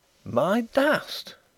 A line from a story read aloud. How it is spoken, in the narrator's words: gasped Draycott